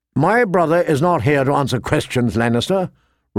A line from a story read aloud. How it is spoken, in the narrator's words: Rob said curtly